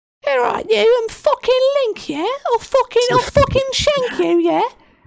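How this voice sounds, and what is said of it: Put-on British accent. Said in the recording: “fucking speaking in a British accent”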